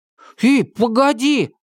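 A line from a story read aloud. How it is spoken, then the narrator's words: Shout. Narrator (Russian): крикнул Чак, пытаясь догнать Томаса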